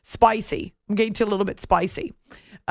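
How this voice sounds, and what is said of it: Attempted Australian accent. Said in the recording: “Is that almost sound like an Aussie accent? ... I might have a career in impressions in my future across the pond.”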